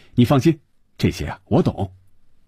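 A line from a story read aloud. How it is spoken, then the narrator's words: Laughing reply. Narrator (Chinese): 李龙伟笑着回答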